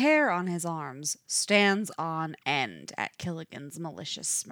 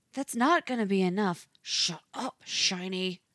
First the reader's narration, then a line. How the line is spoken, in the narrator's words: he hisses over 27's protest